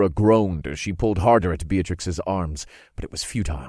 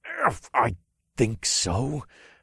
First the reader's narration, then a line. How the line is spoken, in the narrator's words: I growled